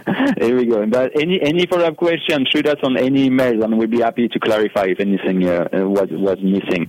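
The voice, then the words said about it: French accent. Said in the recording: “that priceless, priceless French accent that you have”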